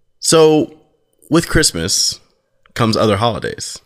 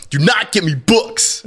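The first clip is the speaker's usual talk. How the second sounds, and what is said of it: Imitates another person's voice. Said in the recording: “my Ed impression? Do you want to hear my impression of you? ... That's pretty spot on. Exactly what I sounded like.”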